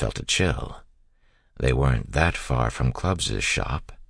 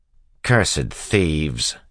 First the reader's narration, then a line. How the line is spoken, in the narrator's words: Tyden spat